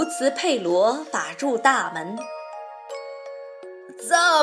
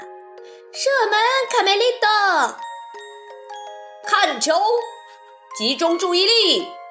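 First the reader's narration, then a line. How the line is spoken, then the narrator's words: Cheerleaders shouting together. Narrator (Chinese): 啦啦队队长卡门带着豆豆妹和小凯莉高喊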